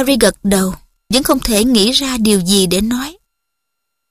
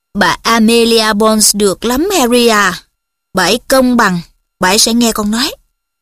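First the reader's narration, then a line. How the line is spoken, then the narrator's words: Stern. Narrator (Vietnamese): Cô Tungs nghiêm nghị nói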